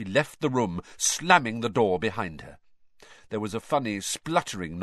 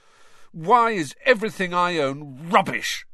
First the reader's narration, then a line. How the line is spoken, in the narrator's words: said Ron furiously